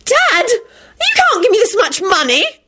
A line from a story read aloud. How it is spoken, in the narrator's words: Rosie squealed happily